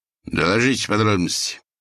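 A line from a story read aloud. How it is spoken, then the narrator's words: Stern command. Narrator (Russian): Он также грозно свел тонкие брови и приказал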